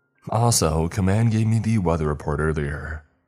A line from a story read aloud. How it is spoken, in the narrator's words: she says